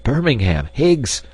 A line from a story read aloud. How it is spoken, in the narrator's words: exclaimed Hans